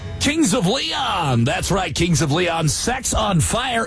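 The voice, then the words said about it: Exaggerated radio DJ voice. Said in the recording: “I was overcome with a dumb DJ voice.”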